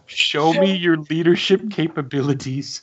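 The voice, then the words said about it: Imitates another person's voice. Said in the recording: “best impression.”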